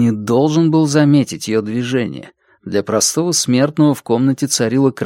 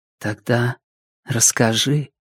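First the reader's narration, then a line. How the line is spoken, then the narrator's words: Whisper. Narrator (Russian): шепнула она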